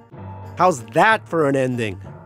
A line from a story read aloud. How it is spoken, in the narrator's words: I shouted